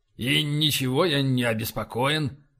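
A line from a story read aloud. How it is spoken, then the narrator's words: Muttering. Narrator (Russian): пробормотал Боровский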